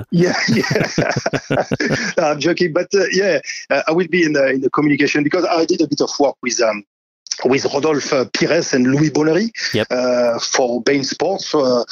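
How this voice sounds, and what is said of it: French accent. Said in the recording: “I've got the French accent”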